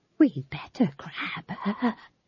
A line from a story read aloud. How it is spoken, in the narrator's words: she whispered to McGrath